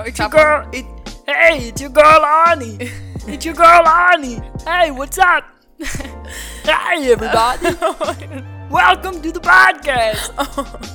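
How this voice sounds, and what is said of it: Imitates another person's voice. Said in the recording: “your Arnold Schwarzenegger impression ... Am I good at it? ... It's okay. ... It's not even good?”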